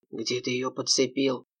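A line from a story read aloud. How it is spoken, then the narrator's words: Whispered question. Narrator (Russian): шепотом спросил Тимофей официант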